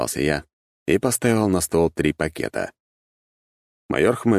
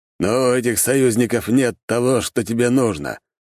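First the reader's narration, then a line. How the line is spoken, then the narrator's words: Snorting. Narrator (Russian): хмыкнул майор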